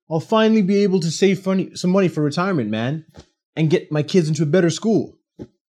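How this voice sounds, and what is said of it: Imitates another person's voice. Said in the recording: “bad impersonation”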